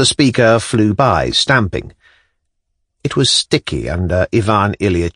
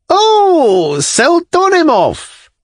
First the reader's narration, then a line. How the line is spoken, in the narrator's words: Someone in an unnaturally shrill voice shouted